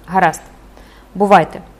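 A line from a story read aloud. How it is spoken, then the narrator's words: Cold. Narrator (Ukrainian): холодно промовив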